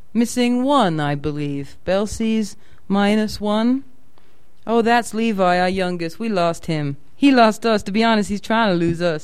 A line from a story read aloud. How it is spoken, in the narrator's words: said, and laughed